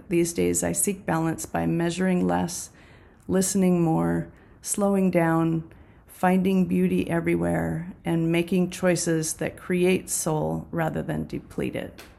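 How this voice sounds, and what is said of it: Froggy, slightly hoarse voice. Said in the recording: “my voice is a little froggy this morning”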